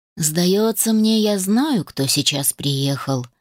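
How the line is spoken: Sudden quiet voice. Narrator (Russian): вдруг тихо произнес Рейн

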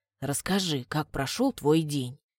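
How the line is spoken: Quiet, unsmiling request. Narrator (Russian): Просит негромко и вроде бы без улыбки

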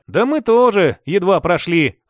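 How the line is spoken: Sighing. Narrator (Russian): Вздохнул я

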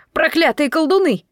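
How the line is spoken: Full-voiced shout. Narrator (Russian): закричал он во весь голос

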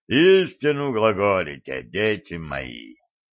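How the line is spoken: Deep bass voice, priest. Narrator (Russian): пробасил батюшка

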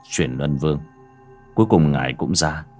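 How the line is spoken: Quiet. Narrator (Vietnamese): Bác Cổ miệng khẽ nói

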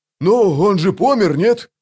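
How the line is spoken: Offended snap. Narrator (Russian): обиженно огрызнулся вал

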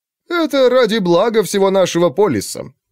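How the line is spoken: Mocking quotation. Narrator (Russian): насмешливо процитировал второй

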